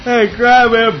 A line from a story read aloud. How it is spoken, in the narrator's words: Prince Jake yelled